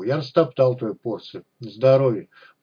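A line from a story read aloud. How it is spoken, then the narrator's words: Gruff grunt. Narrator (Russian): буркнул Борнт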